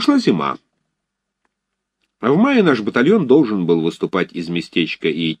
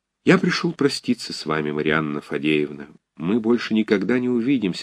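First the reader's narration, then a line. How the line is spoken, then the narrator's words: Sad. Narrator (Russian): сказал грустно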